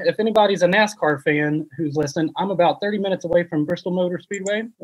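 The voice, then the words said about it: Tennessee Southern US accent. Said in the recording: “I like your accent. You sound like a man from Tennessee.”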